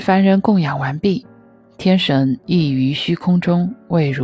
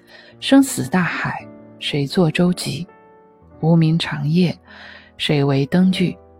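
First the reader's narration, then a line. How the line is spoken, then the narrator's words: Long sigh. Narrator (Chinese): 长叹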